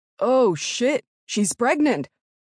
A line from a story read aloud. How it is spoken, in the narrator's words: Tanner exclaimed